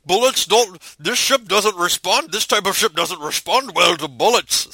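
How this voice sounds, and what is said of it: Sean Connery impression, Scottish accent. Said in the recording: “that was Hunt for Red October. But still, his Russian accent was not... It was a straight-up Scottish accent.”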